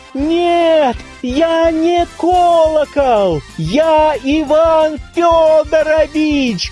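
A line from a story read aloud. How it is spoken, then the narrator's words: Shouting. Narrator (Russian): кричал он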